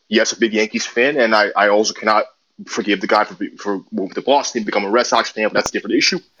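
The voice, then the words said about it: New York City accent. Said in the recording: “I also grew up in New York City, as you can tell by my accent.”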